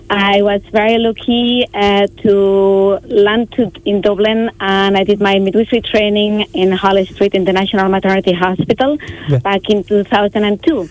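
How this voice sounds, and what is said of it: Catalan Spanish accent. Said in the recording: “As my accent kind of shows, I'm not Irish. I'm from Catalonia. I'm from Barcelona.”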